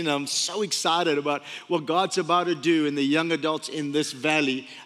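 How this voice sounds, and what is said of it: Speaker with a funny accent. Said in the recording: “funny accent”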